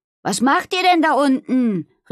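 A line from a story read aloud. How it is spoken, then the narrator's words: Calling out. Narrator (German): rief sie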